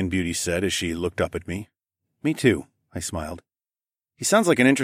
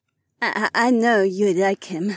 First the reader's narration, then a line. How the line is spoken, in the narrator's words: Heiwan added a little nervously